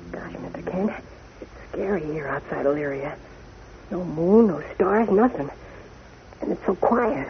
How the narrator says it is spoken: Jimmy whispers

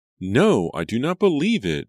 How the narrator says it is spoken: Julia cried

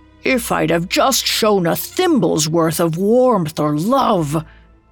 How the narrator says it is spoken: He groaned in despair

